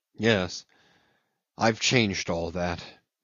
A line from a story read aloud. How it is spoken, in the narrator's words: he muttered in a gloomy voice